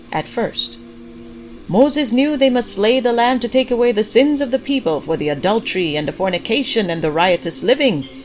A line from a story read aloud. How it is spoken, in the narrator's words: Pastor Clyde shouted